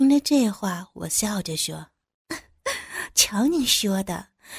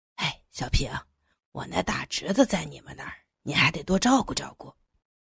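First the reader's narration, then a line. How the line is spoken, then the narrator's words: Low voice. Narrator (Chinese): 李处又低声跟我说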